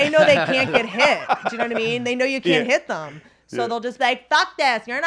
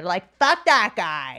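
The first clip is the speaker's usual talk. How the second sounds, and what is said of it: Impression of a rich woman heckler. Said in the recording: “a really good impression”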